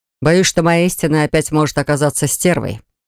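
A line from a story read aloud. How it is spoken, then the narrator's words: Ruler's growl. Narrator (Russian): рыкнул владыка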